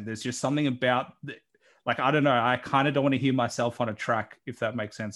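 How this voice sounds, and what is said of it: Australian accent. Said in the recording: “I'm still getting used to the Australian accent. I know that's my accent”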